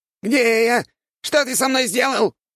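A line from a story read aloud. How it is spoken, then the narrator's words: Squeaking. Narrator (Russian): пищал бедолага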